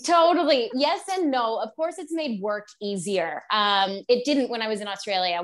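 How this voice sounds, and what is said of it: North American accent. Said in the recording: “I just never lost my Canadian or American sort of accent ... I can just sort of use my natural accent”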